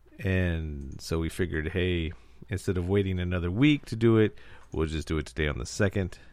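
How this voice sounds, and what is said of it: Under-the-weather, sick-sounding voice. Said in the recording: “You might be able to tell by my voice. I'm a little under the weather.”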